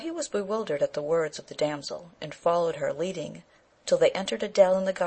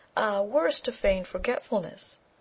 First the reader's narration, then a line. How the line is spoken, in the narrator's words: she exclaimed